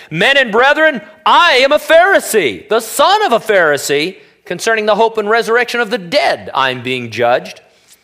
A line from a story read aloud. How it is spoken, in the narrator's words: Paul cried out in the council